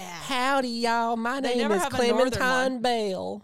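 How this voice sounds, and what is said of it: Southern belle accent. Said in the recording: “you always have like that one Southern belle”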